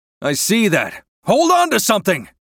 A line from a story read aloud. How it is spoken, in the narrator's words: yells